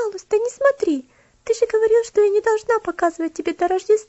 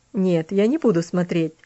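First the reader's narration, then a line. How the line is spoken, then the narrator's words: Laughing, mocking. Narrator (Russian): рассмеялся он над ее переживаниями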